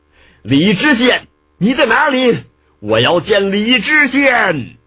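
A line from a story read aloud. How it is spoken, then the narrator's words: Repeated powerful roars. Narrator (Chinese): 运足了真气连连大吼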